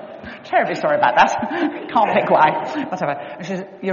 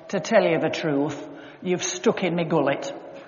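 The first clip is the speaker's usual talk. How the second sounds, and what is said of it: Put-on Yorkshire accent. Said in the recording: “she was from Yorkshire as well ... I won't go on with the Yorkshire accent”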